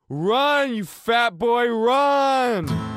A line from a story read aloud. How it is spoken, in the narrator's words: From behind me, in the faceless dark, screaming